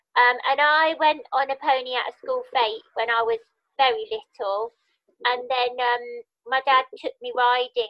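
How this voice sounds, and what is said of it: Birmingham accent. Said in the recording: “from Birmingham originally, which you can probably hear in my voice because I've never lost my accent.”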